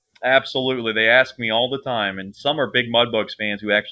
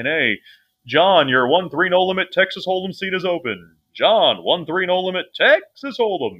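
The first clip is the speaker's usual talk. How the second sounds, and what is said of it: Booming announcer-style voice. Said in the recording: “you do have an announcer voice”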